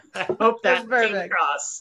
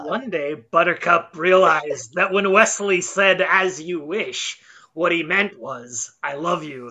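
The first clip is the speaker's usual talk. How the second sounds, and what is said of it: Imitates another person's voice. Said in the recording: “That was my Peter Falk impression.”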